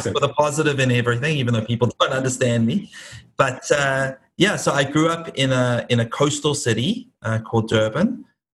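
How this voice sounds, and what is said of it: South African accent. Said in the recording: “with your accent, we also share some common roots of being from South Africa ... It's a great accent.”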